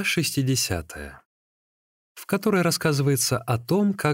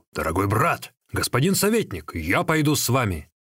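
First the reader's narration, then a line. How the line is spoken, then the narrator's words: Loud shout. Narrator (Russian): черный вихрь Ли Куй громко крикнул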